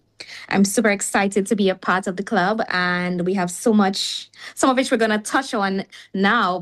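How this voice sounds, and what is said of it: Trinidadian accent. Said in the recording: “I'm Trinbagonian. I know you guys can hear the accent”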